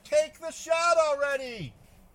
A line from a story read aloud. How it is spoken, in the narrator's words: yell from below